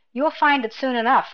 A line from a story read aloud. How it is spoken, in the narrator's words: the sub-officer chuckled